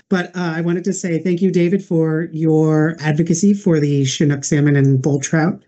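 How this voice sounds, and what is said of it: Hoarse, fading voice. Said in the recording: “I'm not feeling well and losing my voice very quickly and rapidly”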